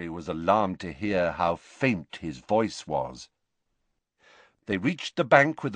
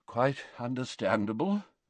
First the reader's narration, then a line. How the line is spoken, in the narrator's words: murmured Dumbledore